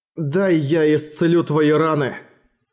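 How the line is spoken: Plain. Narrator (Russian): сказал он Сапфире

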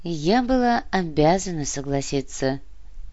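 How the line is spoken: Sighing. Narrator (Russian): вздохнула Всеслава

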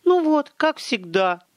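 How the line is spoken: Dramatic exclamation. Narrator (Russian): патетически воскликнула Велла

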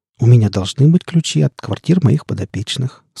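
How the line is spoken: Calm reply. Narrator (Russian): спокойно ответила Лоя

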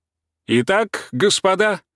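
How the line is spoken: Herald-like shout. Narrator (Russian): крикнул он тоном Герольда

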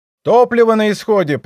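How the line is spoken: Shouted. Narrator (Russian): прокричал пилот вертолета

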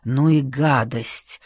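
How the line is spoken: Whisper. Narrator (Russian): шепнул он Лиде Ромнич

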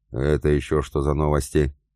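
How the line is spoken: Menacing question. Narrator (Russian): грозно вопросил Илья

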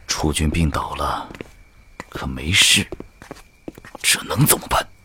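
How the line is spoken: Quiet voice. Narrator (Chinese): 他对贺连侯小声说

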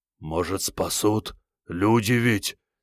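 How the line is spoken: Hopeful hoarse rasp. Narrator (Russian): с надеждой прохрипел Алексей Валентинович

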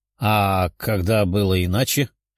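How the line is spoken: Short chuckle. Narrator (Russian): хохотнул демон

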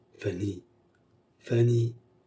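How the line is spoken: Murmuring. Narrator (French): murmura-t-elle

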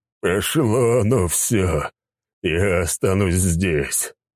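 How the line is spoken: Moaning. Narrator (Russian): простонал Сигизмунд

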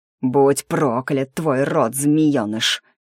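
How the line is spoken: Growl. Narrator (Russian): прорычал Ардан

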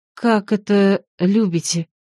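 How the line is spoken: Confused whisper. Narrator (Russian): Растерянно прошептала

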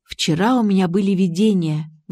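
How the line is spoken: Sighing. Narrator (Russian): вздохнула

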